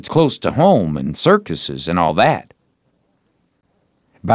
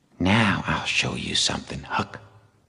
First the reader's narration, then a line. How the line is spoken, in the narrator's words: Tom whispered